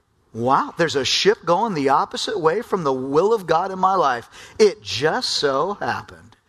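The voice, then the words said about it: Sarcastic delivery. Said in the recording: “I hope you can hear the sarcasm in my voice.”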